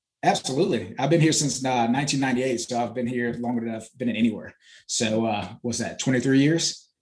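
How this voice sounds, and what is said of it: Southern American country twang. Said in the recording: “how do you have that accent that you have right now? ... you country ... I've adapted that country twang”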